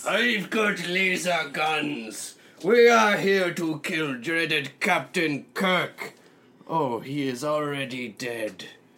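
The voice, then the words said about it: Put-on vague Russian accent. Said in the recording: “We are, I guess, Russian aliens now, with our undefined accent ... your accent's such a turnoff ... It is most sexy accent.”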